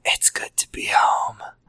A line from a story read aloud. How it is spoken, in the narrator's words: I whispered